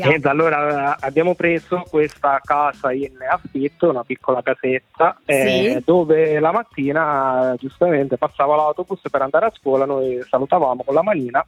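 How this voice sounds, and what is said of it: Sicilian Italian accent. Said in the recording (Italian): “Non mi sembri anche tu di Vimercate, dall'accento però ... Io sono della provincia di Palermo”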